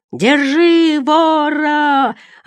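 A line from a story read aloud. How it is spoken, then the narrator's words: Confused yelling. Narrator (Russian): орал, не разобравшись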